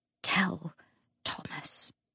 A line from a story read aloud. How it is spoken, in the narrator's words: he whispered